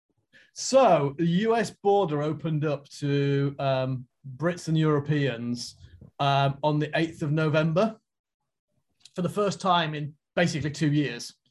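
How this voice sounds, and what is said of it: British accent. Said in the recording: “you might be able to tell from his accent, he's from? ... I'm from the UK.”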